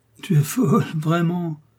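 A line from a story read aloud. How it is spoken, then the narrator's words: Laughing. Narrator (French): dit-il en riant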